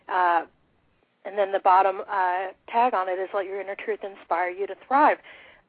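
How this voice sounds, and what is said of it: Hoarse, failing voice. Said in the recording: “I'm losing my voice today”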